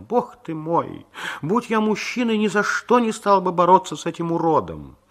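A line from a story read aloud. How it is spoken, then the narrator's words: Shrieking laughter, wondering aloud. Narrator (Russian): все взвизгивали от смеха, вслух удивлялись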